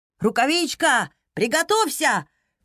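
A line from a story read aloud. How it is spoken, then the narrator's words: Shout from behind. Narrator (Russian): крикнул Эол, который стоял на несколько шагов позади нее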